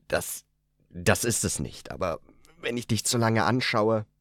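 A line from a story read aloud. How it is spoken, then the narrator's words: Choked voice. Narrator (German): Mit erstickter Stimme meinte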